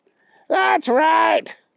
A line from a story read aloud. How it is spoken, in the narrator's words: yelled Wild Wally